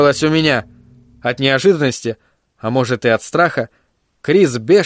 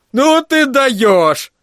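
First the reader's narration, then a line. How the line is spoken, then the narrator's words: Yelling. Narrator (Russian): заорал он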